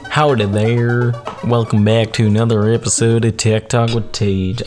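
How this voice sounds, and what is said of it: Put-on country-style accent. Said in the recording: “I don't know what this accent is. I don't know if it's country or not.”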